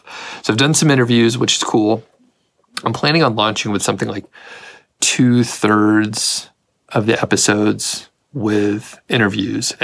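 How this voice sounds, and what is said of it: Rough, gravelly morning voice. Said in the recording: “right now, I'm recording this somewhat early in the morning. My voice, it's pretty rough in the morning ... your voice is a little gravelly ... I haven't lost my voice, but it sounds pretty rough”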